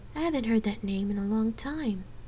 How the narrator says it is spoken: she murmured

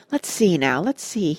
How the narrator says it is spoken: he murmured

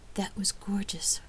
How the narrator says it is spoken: Rain said softly

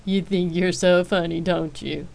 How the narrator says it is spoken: Jace asked, laughing

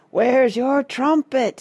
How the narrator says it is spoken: yelled

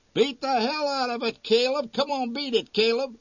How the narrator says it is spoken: one yelled

